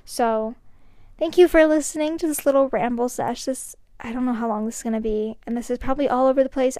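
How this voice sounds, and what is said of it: Out of breath, weird-sounding voice. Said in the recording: “I probably sound weird and out of breath”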